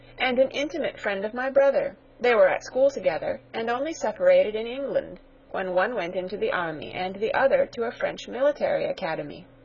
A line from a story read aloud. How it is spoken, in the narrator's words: cried the young lady